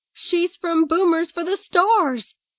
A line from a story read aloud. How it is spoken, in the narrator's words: the woman shouted, her voice losing some of its lyricism